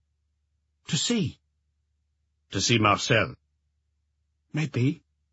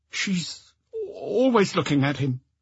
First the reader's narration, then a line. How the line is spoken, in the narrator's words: he stammered